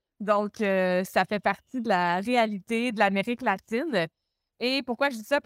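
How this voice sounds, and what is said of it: Québécois French accent. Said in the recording (French): “je pense que ça s'entend... Je viens de Montréal au Québec... j'ai mon accent qui est différent de celui de ... la traduction québécois-suisse”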